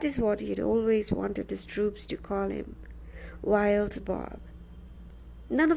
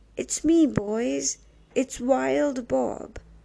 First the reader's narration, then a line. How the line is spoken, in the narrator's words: he cried out wetly